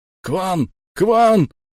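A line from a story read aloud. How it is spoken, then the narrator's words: Yelling. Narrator (Russian): орал крюкомет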